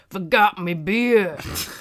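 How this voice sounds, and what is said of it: Imitates another person's voice. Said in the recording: “my Steve Austin impression.”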